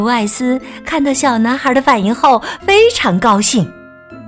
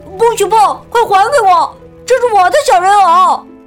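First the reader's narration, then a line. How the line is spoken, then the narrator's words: Child crying out. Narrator (Chinese): 小男孩立刻叫了起来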